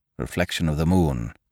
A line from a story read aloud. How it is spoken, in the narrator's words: muttered Saunderson